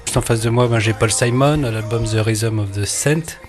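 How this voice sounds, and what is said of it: French-accented English words. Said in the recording (French): “Désolé pour mon accent anglais.”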